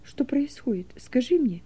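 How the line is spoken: Whispered plea. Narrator (Russian): шепотом попросила Тамара

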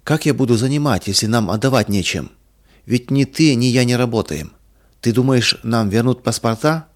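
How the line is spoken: Calm question. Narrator (Russian): спокойно спросил Иван Михайлович

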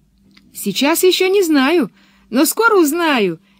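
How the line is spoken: Cheerful. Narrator (Russian): весело ответила Пеппи

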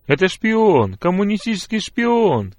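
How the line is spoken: Shouting peasants. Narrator (Russian): кричали некоторые крестьяне

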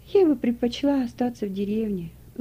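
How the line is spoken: Sighing. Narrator (Russian): вздохнула Трина

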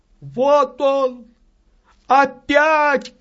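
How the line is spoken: Shouting. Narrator (Russian): кричала она

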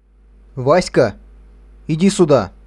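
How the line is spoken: Shouting. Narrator (Russian): крикнул Петр

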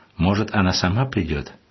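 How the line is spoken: Plain. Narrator (Russian): ответил монах

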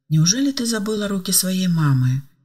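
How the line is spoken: Sad question. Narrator (Russian): грустно спросила Ева

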